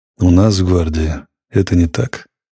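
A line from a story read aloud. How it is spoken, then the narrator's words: Dry, curt statement. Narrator (Russian): сухо сказал ротмистр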